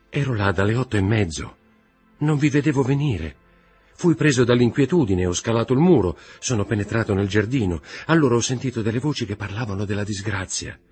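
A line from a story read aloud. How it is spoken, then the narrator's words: Trembling voice. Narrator (Italian): disse Morrel con voce tremante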